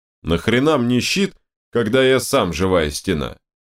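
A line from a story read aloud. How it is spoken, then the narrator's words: Booming rumble. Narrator (Russian): прогудел Данила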